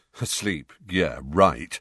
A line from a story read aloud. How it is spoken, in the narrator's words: said Fred in an undertone